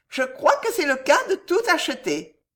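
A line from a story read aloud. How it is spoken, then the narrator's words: Laughing woman. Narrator (French): dit la dame en riant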